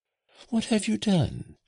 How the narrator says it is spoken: she exclaimed

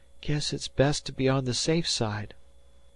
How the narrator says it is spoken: he murmured at last

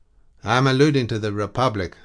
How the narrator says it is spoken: answered Scaevola, in a more assured tone than usual

